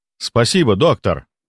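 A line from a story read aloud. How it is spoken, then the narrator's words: Normal, cultured voice. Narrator (Russian): произнес он совершенно нормальным, интеллигентным голосом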